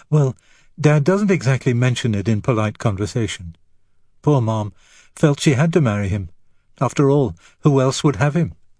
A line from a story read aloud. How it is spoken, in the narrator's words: Beauvoir laughed again